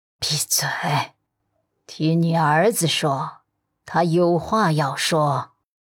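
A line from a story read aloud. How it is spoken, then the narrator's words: Old woman, hushed, frowning. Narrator (Chinese): 陆家老太太却蹙眉，压低声音说了一句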